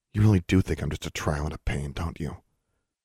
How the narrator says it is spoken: she muttered

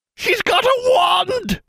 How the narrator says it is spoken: shouted one of the goblins

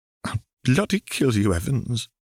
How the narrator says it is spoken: she choked as tears spilled from her eyes

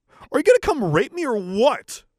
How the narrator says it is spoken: I yelled

